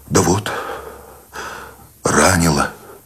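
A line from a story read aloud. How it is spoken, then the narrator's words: Tired exhale. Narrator (Russian): Сущень устало выдохнул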